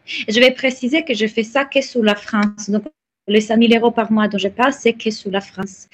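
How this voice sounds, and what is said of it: Italian accent speaking French. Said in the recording (French): “vous entendez, j'ai un accent, donc je suis italienne”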